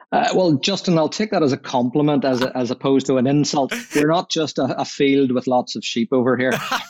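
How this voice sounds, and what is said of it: Irish accent. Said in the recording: “your lovely accent ... is headquartered in Ireland”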